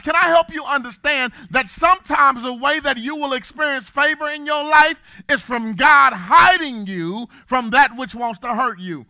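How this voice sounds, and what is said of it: Preacher voice. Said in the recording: “I got my preacher voice on”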